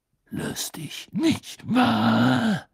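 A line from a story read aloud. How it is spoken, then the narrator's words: Growling. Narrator (German): knurrte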